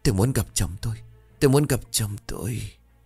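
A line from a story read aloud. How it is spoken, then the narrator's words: Fading continuous whisper. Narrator (Vietnamese): Lệ từ từ lịm đi, nhưng miệng của cô vẫn liên tục thì thào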